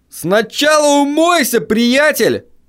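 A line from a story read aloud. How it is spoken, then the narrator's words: Shouting driver. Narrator (Russian): крикнул мне водитель пикапа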